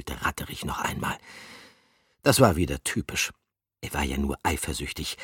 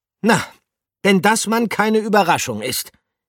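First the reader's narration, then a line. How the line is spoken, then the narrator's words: Called back. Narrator (German): rief er zurück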